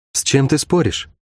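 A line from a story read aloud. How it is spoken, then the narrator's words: Quiet question. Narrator (Russian): тихо поинтересовалась у него Шерон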